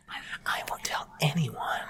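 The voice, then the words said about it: Whispering. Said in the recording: “I don't like that in my ear. ... Me whispering?”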